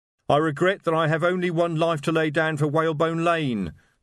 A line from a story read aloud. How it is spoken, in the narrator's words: the voice shouted from somewhere behind a wardrobe